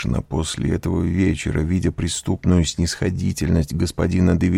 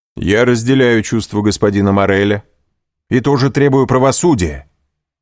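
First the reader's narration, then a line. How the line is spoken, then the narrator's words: Loud. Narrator (Russian): сказал он громко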